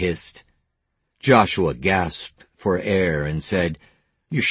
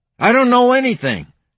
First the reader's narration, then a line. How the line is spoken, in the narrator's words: Joshua yelled